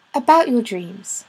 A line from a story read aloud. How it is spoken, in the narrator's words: said Gwen